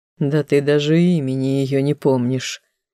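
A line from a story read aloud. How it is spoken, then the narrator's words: Dismissive snort, prince. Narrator (Russian): только и хмыкнул второй принц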